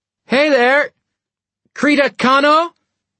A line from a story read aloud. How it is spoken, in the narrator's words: shouted